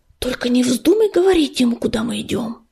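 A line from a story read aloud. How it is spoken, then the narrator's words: Quick whisper. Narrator (Russian): быстро прошептал он вслед Крутобоку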